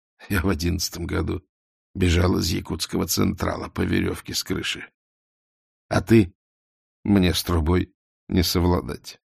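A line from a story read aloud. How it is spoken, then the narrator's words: Sighing. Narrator (Russian): вздохнул Эраст Петрович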